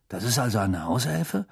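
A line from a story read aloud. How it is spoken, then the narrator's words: Murmur. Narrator (German): murmelte Ron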